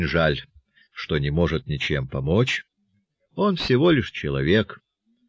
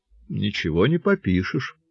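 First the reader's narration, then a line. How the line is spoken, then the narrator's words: Sad old village elder. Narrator (Russian): грустно проронил староста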